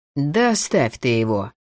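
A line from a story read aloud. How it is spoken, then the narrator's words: Drawling. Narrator (Russian): протянул Йосио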